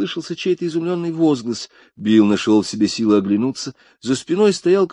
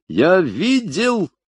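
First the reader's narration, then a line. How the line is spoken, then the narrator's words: Shouted out. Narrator (Russian): выкрикнул человек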